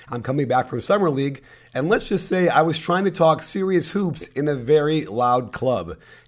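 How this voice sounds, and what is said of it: Scratchy, hoarse voice. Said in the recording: “my voice is a little bit scratchy in a couple of parts of the pod today ... Hence, I sound like Harvey Fierstein”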